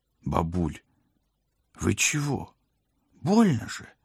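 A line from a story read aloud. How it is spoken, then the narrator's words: Groaning. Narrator (Russian): простонал я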